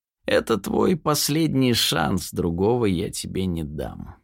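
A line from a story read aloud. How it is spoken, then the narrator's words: Hoarse voice. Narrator (Russian): хрипло произнесла она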